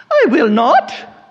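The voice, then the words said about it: High-pitched upper-class English voice. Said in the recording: “she was an aristocrat from England. She had this high voice that I loved to imitate her.”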